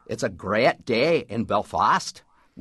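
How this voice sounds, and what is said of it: Northern Irish accent, rising inflection. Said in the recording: “in Northern Ireland ... with that upward rising inflection and the extension of the vowel as well ... that's a Catholic Irish, Northern Irish accent”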